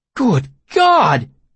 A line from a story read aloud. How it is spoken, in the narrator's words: I exclaimed, covering my mouth with one hand